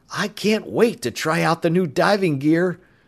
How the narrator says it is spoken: Bud said excitedly

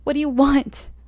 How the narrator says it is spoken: I screamed

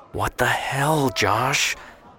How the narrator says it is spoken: Emily whispered

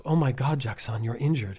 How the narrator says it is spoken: gasp

